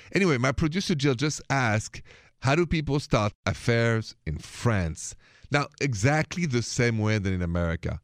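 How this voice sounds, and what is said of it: French accent. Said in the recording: “the accent, it is from France”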